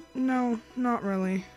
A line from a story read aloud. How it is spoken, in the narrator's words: she sighed